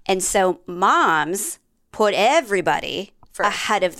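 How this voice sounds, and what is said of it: Usual voice. Nothing is said of it.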